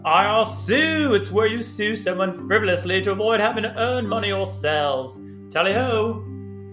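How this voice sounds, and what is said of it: Put-on British accent. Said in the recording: “my favorite British accent”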